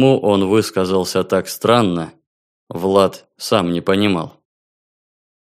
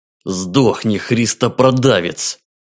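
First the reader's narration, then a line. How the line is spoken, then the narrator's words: Angry hissing. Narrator (Russian): злобно шипя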